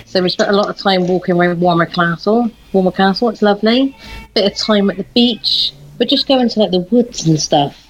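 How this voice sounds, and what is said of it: Bristolian accent. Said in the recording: “you haven't lost your accent. You've still got the Sharehampton, Avonmouth, Lawrence Weston slang ... that's Bristolian.”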